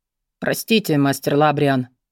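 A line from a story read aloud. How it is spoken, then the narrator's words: Gruff mutter. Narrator (Russian): буркнул некромант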